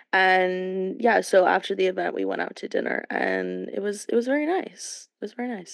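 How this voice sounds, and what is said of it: Voice with some vocal fry. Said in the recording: “My voice is a little vocal fry today.”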